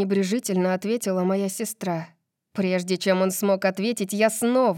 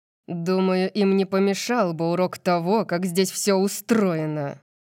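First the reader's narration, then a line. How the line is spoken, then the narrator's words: Growling. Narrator (Russian): прорычал Макс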